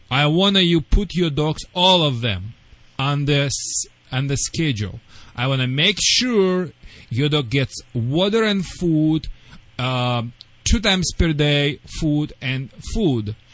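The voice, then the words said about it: Non-native English accent. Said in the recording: “sorry for my accent”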